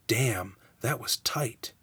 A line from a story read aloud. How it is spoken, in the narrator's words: There was a murmured